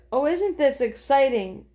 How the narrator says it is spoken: cried Jesse

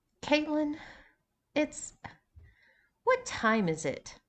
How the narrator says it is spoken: groaned again

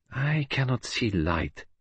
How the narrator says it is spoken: he murmured

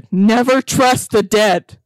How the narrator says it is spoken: screamed again tear-soaked shouted

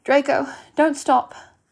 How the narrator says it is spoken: she pleaded

